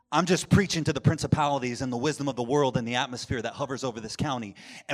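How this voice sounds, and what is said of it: Loud, raised preaching voice. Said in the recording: “I'm not yelling at you. ... Not because I'm raising my voice.”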